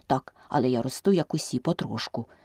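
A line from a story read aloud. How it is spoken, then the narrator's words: Plain. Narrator (Ukrainian): сказав вовчок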